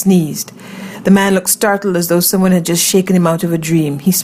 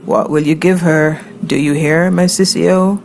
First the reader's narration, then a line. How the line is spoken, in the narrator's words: croaked